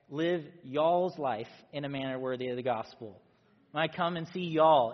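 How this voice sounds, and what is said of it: Put-on Southern American accent. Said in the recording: “put on like your cowboy hat, get your southern accent.”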